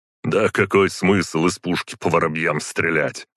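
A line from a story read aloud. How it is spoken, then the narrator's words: Scornful snort. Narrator (Russian): хмыкнул Борис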